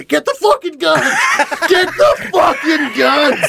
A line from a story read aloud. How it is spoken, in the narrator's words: screaming